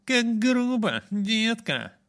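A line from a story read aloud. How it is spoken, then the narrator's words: Upset voice. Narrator (Russian): сказал Эйджи огорченным голосом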